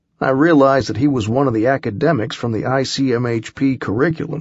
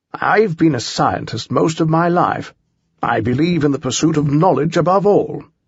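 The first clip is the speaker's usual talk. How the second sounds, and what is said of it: Proper British accent. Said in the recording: “a proper British accent”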